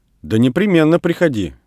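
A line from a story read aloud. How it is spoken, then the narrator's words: Stern. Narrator (Russian): повторила Людмила строго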